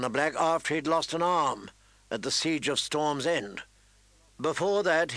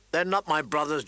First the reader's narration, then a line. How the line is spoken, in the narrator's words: John snapped